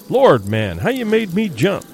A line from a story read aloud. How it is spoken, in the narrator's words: he exclaimed